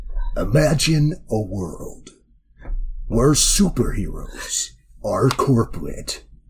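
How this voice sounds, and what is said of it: Dramatic movie-trailer narrator voice. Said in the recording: “I need that in the trailer voice, please. ... Do it in the right voice.”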